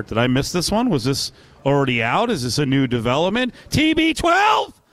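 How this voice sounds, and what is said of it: Loud yelling. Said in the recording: “I'm yelling a lot today”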